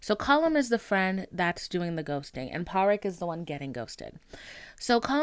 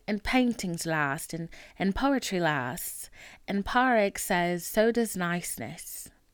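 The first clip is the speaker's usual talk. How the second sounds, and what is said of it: Put-on Irish accent. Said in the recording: “Should I try to talk in my Irish accent? Because they're Irish in this movie”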